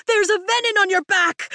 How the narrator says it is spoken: I shout at Tern

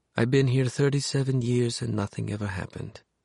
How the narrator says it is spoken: she said quietly, a soft thread of old Europe running through her words

